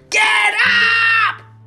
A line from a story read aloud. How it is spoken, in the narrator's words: screamed Wilbur